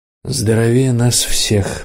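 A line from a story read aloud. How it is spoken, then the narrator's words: Gloomy. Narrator (Russian): мрачно сказал Ник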